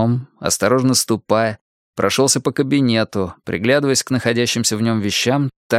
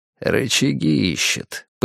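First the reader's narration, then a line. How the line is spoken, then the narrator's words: Knowing mutter. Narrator (Russian): понимающе пробормотал Нуржан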